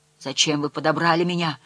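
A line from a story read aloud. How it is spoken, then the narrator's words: Moaning. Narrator (Russian): стонал он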